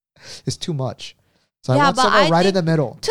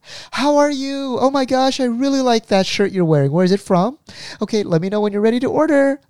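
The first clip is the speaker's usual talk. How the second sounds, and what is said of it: Overly enthusiastic, upbeat server voice. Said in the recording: “people throw too much enthusiasm”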